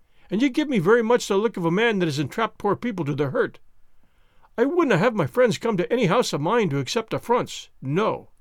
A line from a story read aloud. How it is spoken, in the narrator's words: he cried, with a sudden heat of anger